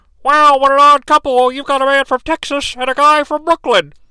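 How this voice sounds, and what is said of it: Tony Schiavone impression, Miss Piggy-like. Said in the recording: “my Tony Schiavone impression is pretty unique. I've been told I kind of make him sound like Miss Piggy ... makes him sound like he's underwater all the time”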